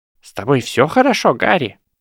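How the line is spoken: Squeaky voice. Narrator (Russian): пропищал декан Когтеврана

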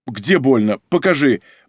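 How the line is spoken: Mumbling. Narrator (Russian): бормотал Дубовой

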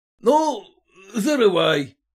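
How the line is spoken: Shouted. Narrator (Russian): крикнул кто-то

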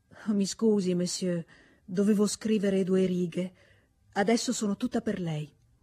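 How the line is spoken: Deeply moved woman. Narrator (Italian): la viscontessa che gli disse, in un tono commosso da toccargli le corde intime del cuore

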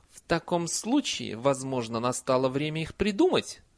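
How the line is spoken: Plain. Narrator (Russian): сказала она

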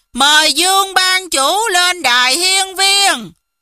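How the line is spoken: Crowd cheering together. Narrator (Vietnamese): cùng reo lên

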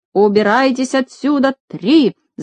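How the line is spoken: Shout. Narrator (Russian): закричал между тем Ригель

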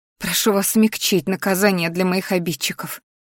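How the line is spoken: Quietly spoken. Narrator (Russian): произнесла тихо

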